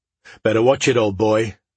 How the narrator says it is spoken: Steiger said to himself, with a slight chuckle

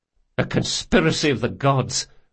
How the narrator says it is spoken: Locke muttered

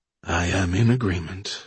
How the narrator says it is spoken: said Johnson wearily

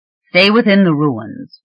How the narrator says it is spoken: he said curtly

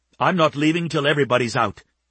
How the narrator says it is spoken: she said firmly

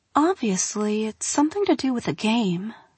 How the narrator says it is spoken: she murmured

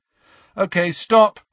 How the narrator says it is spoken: Harry shouted

